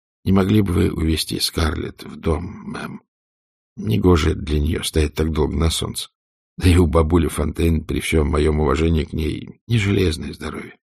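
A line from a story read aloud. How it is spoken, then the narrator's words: Quiet. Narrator (Russian): Уилл сказал тихо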